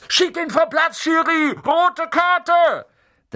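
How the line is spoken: Shouting. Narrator (German): Unten auf den Rängen schrie Dean Thomas

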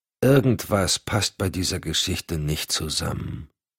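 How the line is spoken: Absent-minded mumble. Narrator (German): murmelte Cotton gedankenverloren

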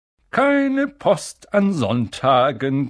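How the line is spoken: Cheerful reminder. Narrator (German): gemahnte er sie fröhlich

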